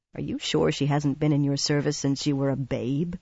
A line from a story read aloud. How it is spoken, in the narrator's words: she muttered